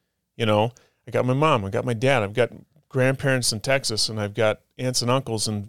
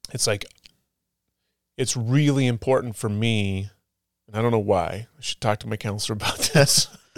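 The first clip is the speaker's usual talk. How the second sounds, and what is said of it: Emotional, choked-up voice. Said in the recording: “sorry, I'm getting emotional here for a second”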